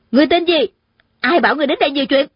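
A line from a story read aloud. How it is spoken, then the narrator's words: Shrill shout. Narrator (Vietnamese): Tôn Trọng Quân thè thé hét lên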